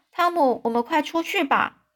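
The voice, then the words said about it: Trembling, shaky voice. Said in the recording (Chinese): “颤抖的声音说”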